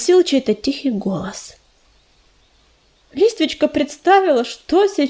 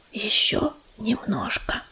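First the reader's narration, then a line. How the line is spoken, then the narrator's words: Whisper. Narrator (Russian): прошептал грач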